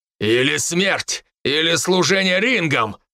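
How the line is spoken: Growled. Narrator (Russian): рыкнул

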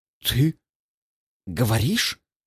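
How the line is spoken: Awkward, forced out. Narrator (Russian): выдавил я, чувствуя себя идиотом

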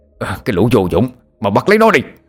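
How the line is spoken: Angry shout. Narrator (Vietnamese): Lão Ngạn giận dữ hét lên

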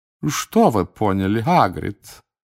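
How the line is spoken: Purring in a deep voice. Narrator (Russian): промурлыкала басом мадам Максим

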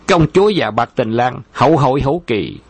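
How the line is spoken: Loud laughing speech. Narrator (Vietnamese): Khâu Trọng cười lớn nói

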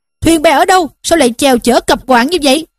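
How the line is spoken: Boatmen shouting. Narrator (Vietnamese): Bọn lái đò bèn quát lên rằng

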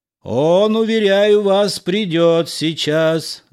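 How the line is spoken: Yelling at full volume. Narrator (Russian): заорал я во все горло, желая дать знать за кулисы о беспорядке

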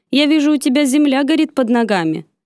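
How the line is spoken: Accusing tone. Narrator (Russian): обвиняющим тоном произнес

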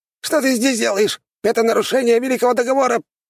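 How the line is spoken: Frightened squeak. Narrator (Russian): пропищал тот, испугавшись

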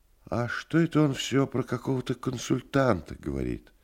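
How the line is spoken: Sighing question. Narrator (Russian): Вздохнул и спросил

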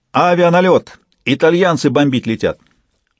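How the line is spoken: Guard shouting. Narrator (Russian): караульный крикнул

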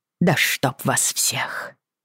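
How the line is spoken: Grumbled under breath. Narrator (Russian): буркнула вполголоса

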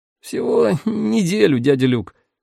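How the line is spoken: Embarrassed reply. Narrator (Russian): смущенно ответил Ферье

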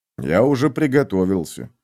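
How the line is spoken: Muttered. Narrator (Russian): пробормотал Витал

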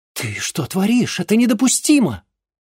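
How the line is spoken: Astonished exclamation. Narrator (Russian): изумленно воскликнула Клея

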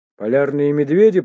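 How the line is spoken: Shout. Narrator (Russian): прокричал Толланд

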